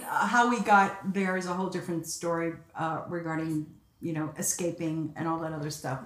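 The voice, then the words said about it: Slight Bronx accent. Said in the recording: “I hear a slightly Bronx accent in there.”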